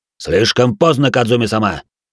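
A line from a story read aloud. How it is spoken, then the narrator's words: Sharp interruption. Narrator (Russian): довольно резко прервал ее Хару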